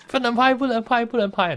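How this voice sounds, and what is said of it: Imitated Malaysian accent. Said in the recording (Chinese): “有点那个马来西亚的口音”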